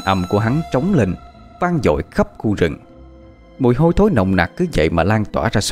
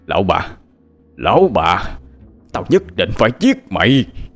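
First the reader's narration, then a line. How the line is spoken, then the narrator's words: Roar. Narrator (Vietnamese): gầm lên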